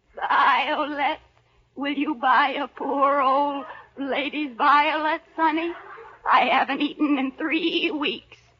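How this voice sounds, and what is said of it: Bleating old lady character voice. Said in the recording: “you sound like a goat.”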